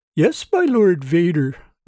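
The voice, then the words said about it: Falsetto voice. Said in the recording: “in a falsetto voice.”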